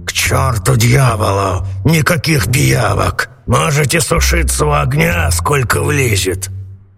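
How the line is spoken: Grumbled. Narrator (Russian): Сеньор Карабас-Барабас проворчал

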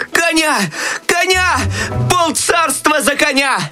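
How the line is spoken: Desperate shout. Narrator (Russian): В отчаянии закричал Щелкунчик

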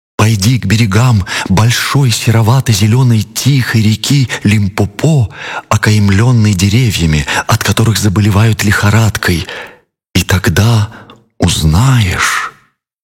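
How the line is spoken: Sad cry. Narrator (Russian): Кола-кола птица печально вскрикнула и сказала

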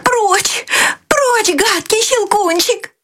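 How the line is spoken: Terrified scream. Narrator (Russian): в ужасе закрыла лицо руками и закричала

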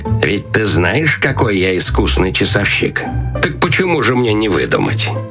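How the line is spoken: Quiet, strange laugh. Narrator (Russian): советник, засмеявшись каким-то особенно странным смехом, тихо сказал

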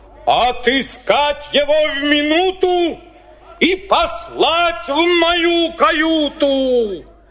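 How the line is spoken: Whale shouting angrily. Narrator (Russian): Кит во гневе закричал

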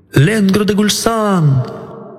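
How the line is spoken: Nobleman shouting thrice. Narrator (Russian): этот вельможа трижды крикнул

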